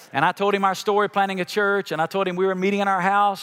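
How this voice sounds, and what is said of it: Noticeable non-local regional accent. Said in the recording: “He asked me the same two questions everybody did when they heard my accent. Where are you from?”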